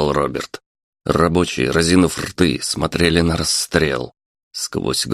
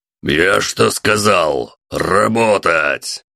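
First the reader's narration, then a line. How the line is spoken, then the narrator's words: Roar. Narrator (Russian): Телохранитель взревел на строителей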